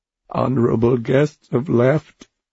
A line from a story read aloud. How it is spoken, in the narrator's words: he said, sobbing